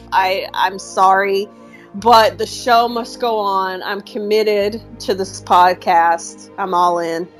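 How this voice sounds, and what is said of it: Rough, hoarse voice from a cold. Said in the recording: “I am still battling my illness. This cold is refusing to leave my body ... my voice sounds really rough ... her voice might be rough”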